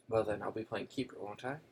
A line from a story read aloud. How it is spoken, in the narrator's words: said McLaggen